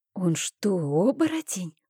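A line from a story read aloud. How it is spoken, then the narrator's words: Whisper. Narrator (Russian): прошептала я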